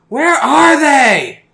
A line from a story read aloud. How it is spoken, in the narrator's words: your mom shouting